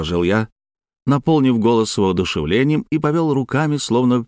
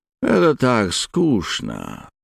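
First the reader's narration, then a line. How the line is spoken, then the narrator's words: Bored drawl. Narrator (Russian): протянул Билли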